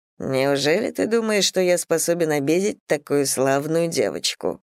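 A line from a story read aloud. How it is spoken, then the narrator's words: Reproachful purr. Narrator (Russian): с укором промурлыкал отрекомендованный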